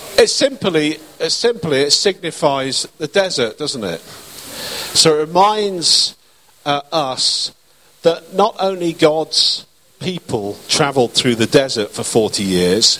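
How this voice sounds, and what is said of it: Speaks with a noticeable accent. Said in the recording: “Sorry, it's my accent.”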